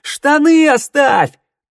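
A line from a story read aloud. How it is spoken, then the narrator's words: Yell. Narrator (Russian): Теодор заорал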